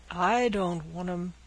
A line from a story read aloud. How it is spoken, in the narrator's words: grumbled Caesar